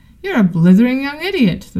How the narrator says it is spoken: the policeman shouted, beginning to work himself up all over again

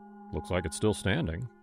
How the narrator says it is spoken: Jason muttered

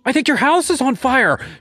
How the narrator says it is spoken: she screamed

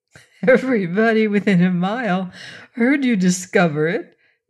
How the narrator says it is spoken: Dorothy giggled

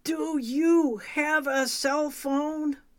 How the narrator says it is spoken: I yelled at the top of my lungs to Kevin

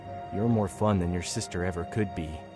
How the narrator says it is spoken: he whispered, his breath hot against my ear

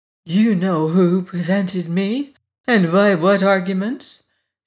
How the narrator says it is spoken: she said in a low, strained voice

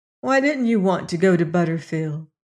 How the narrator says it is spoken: she asked

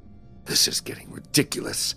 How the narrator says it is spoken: I muttered to myself

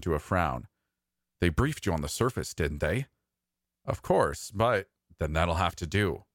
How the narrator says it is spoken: he said firmly

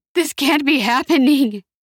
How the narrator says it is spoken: cried Christian, his tears leaving tracks on the soot on his face

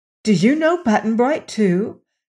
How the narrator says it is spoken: questioned Dorothy eagerly

